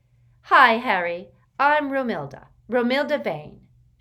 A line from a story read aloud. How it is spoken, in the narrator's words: she said loudly and confidently